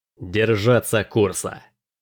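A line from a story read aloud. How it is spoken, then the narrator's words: Hissing. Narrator (Russian): прошипел Дрейк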